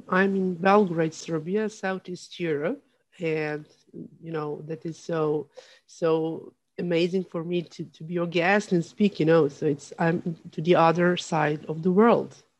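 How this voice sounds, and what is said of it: Slight foreign accent. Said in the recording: “they'll recognize you have a little bit of an accent”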